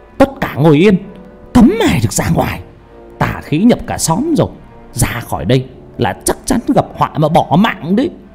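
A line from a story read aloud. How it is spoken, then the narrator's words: Shrill shouting. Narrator (Vietnamese): Bà quát lên choa choạ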